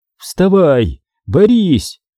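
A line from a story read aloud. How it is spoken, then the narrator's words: Shout. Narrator (Russian): крикнул я Даниэлю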